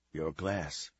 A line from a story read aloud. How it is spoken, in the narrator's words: he whispered in her ear